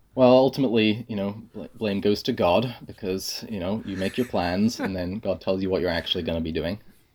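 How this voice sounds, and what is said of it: Non-Canadian English accent. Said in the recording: “your accent does not sound Canadian”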